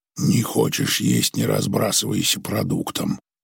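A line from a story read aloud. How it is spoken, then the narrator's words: Quiet. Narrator (Russian): тихо сказал Креч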